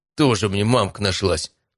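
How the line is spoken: Grumbling mutter, heavy sigh. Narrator (Russian): буркнул Матвей и тяжело вздохнул

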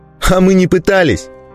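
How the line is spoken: Angry shout. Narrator (Russian): зло выкрикнул Ставр

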